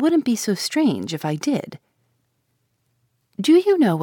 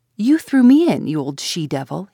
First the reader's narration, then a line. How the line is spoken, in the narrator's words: he exclaimed fiercely